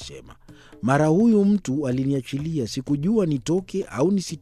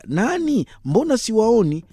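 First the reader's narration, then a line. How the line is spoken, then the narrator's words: Complaining maidservant. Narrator (Swahili): Kijakazi aliteta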